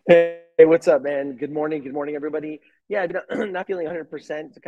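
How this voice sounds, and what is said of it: Hoarse, fading voice. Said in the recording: “losing my voice a little bit. I think I'm getting sick”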